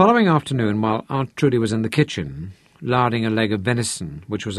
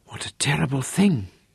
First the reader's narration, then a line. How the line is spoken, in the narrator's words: Aunt Trudy breathed